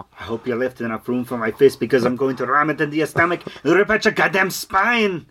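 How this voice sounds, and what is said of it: Arnold Schwarzenegger impression. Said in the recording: “your Arnold impersonation ... an Arnold Schwarzenegger impersonation”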